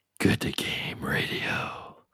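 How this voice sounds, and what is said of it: Deep gravelly Batman-style voice. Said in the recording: “Give us your best Batman impression.”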